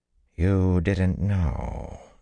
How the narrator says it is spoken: the dark woman breathed

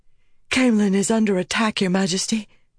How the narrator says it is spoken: the woman said, gasping for breath

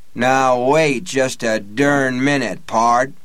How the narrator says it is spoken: Blaine said in his John Wayne voice

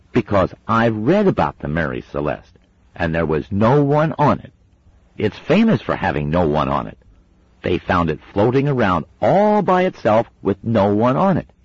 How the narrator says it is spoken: said Wensleydale sternly

